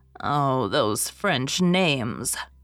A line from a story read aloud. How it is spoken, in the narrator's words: groaned Susan